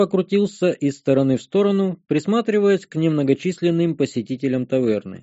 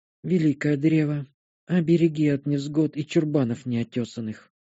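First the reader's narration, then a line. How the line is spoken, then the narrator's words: Sigh. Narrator (Russian): вздохнула она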